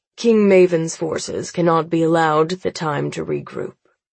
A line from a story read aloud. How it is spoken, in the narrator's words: Father says coolly